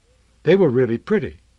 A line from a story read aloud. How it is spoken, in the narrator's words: Noah said